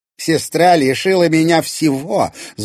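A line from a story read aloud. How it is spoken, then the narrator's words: Spiteful. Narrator (Russian): злобно произнесла Ирина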